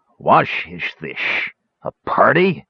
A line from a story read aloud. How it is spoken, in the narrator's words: growled